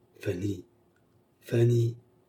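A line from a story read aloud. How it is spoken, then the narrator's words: Murmur. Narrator (French): murmura-t-elle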